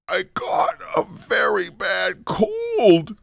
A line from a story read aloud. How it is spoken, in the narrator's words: squeaked Fred in a weak voice